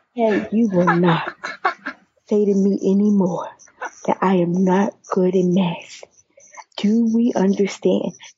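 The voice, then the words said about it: Silly put-on voice. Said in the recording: “put on my silly voice.”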